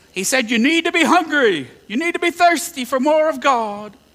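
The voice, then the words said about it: Billy Graham impersonation. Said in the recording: “my Billy Graham impersonation”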